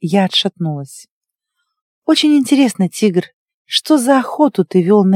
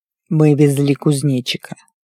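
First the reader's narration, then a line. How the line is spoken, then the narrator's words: Plain. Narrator (Russian): сказал тигр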